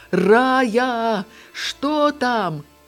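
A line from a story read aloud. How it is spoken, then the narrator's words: Distant women shouting. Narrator (Belarusian): Арэшкіны настаўніцы, якія адышлі ўжо даволі далёка, крычалі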